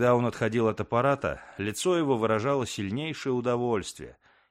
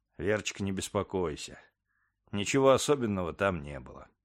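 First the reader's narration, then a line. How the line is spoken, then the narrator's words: Calm, laughing answer. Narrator (Russian): Рэммер рассмеялся и ответил спокойно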